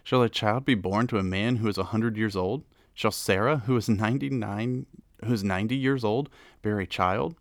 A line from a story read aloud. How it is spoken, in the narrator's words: laughed, and said to himself